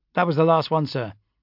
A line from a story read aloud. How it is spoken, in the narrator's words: he said flatly